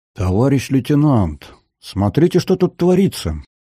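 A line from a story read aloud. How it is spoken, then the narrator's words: Spellbound drawl. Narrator (Russian): зачарованно протянул Корякин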